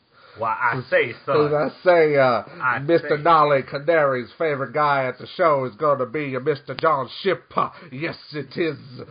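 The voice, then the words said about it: Put-on southern preacher accent. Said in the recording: “southern accent thing going on ... Now I'm a southern preacher now.”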